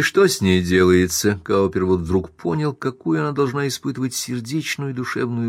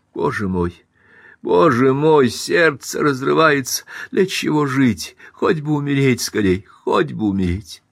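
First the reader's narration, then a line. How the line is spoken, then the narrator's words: Sobbing mutter. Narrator (Russian): Она всхлипывала и бормотала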